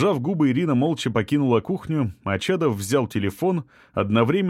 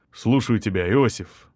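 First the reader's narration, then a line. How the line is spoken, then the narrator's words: Quiet. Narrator (Russian): негромко произнес он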